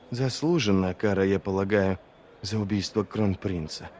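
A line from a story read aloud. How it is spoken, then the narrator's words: Whisper. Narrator (Russian): прошептала Арди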